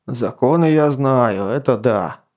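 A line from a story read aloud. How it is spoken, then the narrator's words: Grumbling. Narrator (Russian): пробурчал Атар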